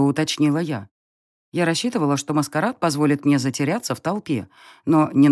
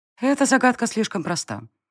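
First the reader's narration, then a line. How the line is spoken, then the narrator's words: Calm young woman. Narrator (Russian): спокойно отозвалась девушка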